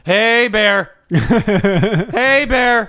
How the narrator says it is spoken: you're supposed to yell

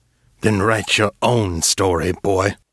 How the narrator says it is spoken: Silas growled

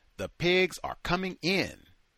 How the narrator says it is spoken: Smith shouted

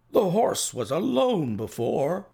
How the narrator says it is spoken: I cried

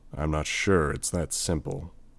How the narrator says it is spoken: Gru said, his voice quiet

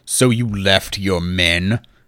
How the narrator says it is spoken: Marcus asked, his voice granite

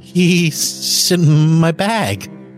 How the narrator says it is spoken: stammered

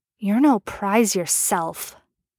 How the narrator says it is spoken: Merlin muttered

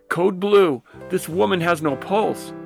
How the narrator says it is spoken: her yell

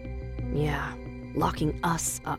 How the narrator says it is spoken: I whispered to Daphne

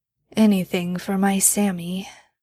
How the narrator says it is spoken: Dean mumbled as he started to drift off to sleep

